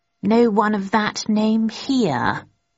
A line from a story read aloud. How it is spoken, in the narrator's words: he said slowly